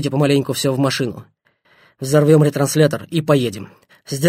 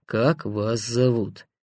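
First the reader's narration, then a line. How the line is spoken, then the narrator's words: Hesitant grumbling prisoner. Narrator (Russian): Пленник помедлил и буркнул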